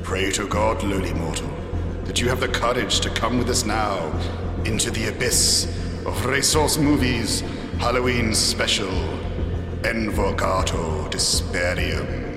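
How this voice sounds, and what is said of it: Spooky fairy-tale imp character voice. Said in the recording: “Are you trying to do that in a Rumpelstiltskin voice?”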